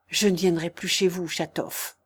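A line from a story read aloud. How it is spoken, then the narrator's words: Low voice. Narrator (French): dit à voix basse Stavrogine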